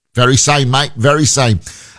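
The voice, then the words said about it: Put-on Australian accent. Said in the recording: “an Australian boss ... You would never guess he was Australian from that accent, would you?”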